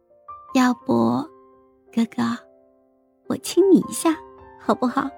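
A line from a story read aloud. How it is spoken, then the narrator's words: Gentle, soft, suppressed laughter. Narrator (Chinese): 孟婉婉笑声渐渐的抑制住，温柔的轻声问道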